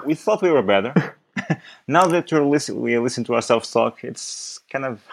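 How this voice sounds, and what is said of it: Portuguese accent speaking English. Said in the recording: “a bad accent ... Portuguese guys trying to talk ... English ... With an improving accent”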